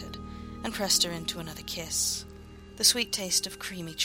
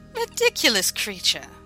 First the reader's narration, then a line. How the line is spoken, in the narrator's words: she laughed